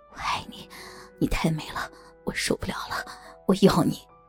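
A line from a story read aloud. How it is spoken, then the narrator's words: Whisper in ear. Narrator (Chinese): 他在我的耳畔低声耳语着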